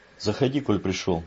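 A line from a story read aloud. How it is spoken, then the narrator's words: Deliberately gruff voice. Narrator (Russian): нарочито грубым голосом сказал он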